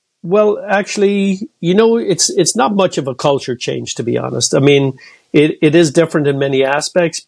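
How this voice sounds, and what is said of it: Irish accent. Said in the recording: “I'm actually from Cork in Ireland ... being Irish in the U.S.? Because your accent comes through for sure.”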